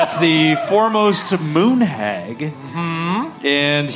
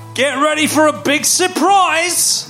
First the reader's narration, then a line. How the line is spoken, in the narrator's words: he's going to shout his signature catchphrase